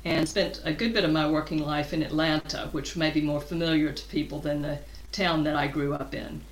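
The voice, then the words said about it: Southern US accent. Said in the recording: “I'm detecting an accent. ... I haven't lost the accent. I grew up in the southern U.S., actually in the state of Georgia”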